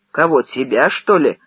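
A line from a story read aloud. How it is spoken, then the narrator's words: Snapped. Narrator (Russian): огрызнулся Кречев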